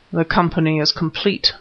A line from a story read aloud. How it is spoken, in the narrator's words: murmured Smith